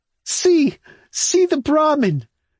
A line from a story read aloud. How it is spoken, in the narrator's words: He is bent double with laughter